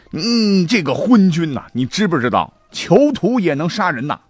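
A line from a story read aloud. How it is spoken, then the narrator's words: Drunken furious cursing. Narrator (Chinese): 南宫长万是酒劲儿上了，怒发冲冠啊，破口大骂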